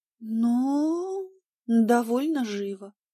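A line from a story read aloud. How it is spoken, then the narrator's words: Evasive drawl. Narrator (Russian): протянула я обтекаемо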